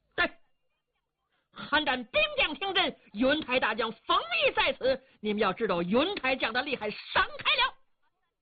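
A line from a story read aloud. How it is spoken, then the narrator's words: Loud shouting. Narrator (Chinese): 冯异高声喊嚷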